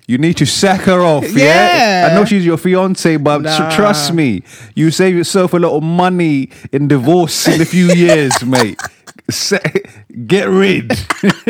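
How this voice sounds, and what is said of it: Put-on Cockney accent. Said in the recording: “his Cockney accent”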